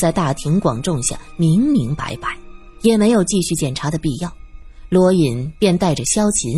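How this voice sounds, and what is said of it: Usual voice. Nothing is said of it.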